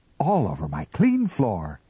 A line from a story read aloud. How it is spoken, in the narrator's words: she cried